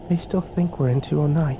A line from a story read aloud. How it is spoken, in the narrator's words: Kimber whispered, as if they could hear her